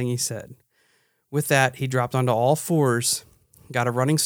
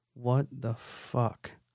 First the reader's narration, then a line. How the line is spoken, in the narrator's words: mumbled to myself